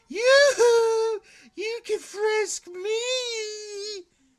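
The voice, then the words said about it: Yelling drunk woman imitation. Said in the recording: “this one lady so wasted. And she's yelling,”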